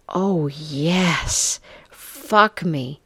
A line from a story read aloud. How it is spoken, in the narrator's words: Jane gasped